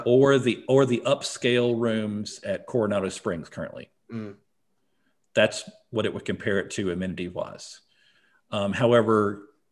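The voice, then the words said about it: US Southern accent. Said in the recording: “I always say it wrong with my U.S. Southern accent”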